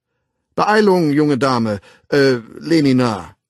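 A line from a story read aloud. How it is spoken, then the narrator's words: Gruff call from afar. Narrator (German): rief der Erzsänger unwirsch vom Fahrstuhleingang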